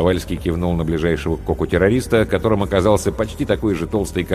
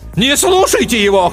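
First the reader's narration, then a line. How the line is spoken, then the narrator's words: Brave shout. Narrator (Russian): храбро крикнул Ландстрейчер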